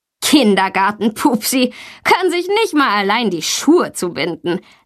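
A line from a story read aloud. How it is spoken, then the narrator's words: Mocking laugh. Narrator (German): lacht Tommy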